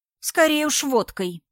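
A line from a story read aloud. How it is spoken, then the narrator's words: Correcting. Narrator (Russian): поправила ее Инна Зло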